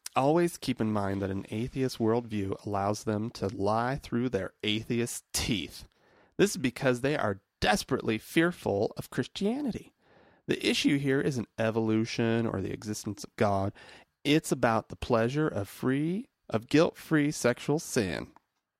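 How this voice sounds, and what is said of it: Reads aloud in a put-on accent. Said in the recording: “with a little accent”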